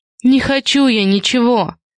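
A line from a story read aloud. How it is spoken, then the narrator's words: Harsh bark. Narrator (Russian): Гаркнула на Улю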